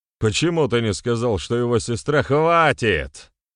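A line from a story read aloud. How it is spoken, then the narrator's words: Shouting. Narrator (Russian): выкрикнул Сигимер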